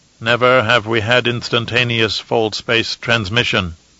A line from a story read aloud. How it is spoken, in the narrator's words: Grodin said